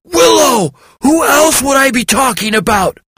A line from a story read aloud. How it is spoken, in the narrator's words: Hawk yelled